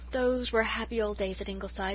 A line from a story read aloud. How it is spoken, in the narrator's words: said Susan with a sigh